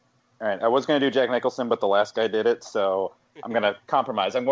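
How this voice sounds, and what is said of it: Usual voice. Nothing is said of it.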